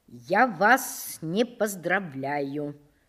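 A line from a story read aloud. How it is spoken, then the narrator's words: Plain. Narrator (Russian): сказал он Грушницкому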